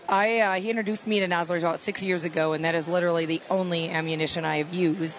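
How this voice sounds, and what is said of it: Midwestern Wisconsin accent. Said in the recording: “I'm from the Midwest, from Wisconsin. ... I couldn't tell by the accent.”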